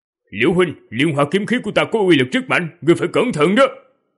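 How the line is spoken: Loud shout. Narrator (Vietnamese): hét lớn một tiếng

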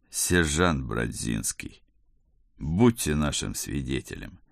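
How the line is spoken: Playful drawl, grandfather. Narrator (Russian): С игривой улыбочкой протянул дедушка

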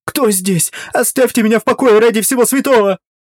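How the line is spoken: Hysterical scream. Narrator (Russian): она истерично закричала

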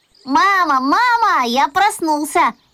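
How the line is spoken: Shouting. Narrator (Russian): закричал

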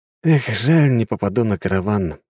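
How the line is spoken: Sighing. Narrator (Russian): вздохнул

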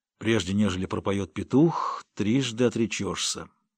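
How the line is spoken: Muttered. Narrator (Russian): Джонни пробормотал

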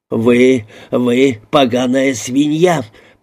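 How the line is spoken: Hissed. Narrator (Russian): прошипел он

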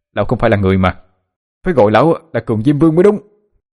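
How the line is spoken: Angry, pained shout. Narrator (Vietnamese): Chỉ vì một đồng bạc mà bị đánh đau quá, nó tức giận mà hét lên

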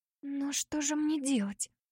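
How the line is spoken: Whispered. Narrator (Russian): прошептала

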